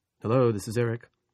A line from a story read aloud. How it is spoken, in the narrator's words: he said